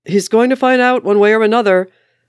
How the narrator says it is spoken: Steve yelled after him

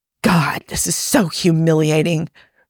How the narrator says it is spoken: Rodney hissed

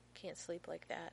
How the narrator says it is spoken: murmurs

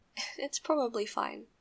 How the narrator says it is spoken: Nikki said, laughing a bit nervously

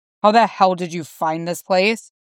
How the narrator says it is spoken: He growls

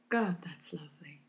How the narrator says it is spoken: Q sighs

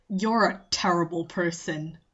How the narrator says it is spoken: Bond muttered

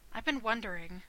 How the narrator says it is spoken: Rodney murmured

